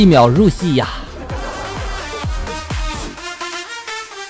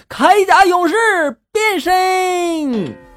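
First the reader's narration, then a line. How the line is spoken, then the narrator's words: Child's passionate loud shout. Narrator (Chinese): 三岁半的儿子…充满激情的高声的喊道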